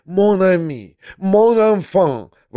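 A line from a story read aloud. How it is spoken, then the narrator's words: Sudden frightened exclamation. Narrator (Russian): воскликнул он вдруг, уже вполне не скрывая своего испуга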